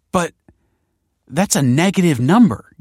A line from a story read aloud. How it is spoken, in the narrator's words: gasped Kelsey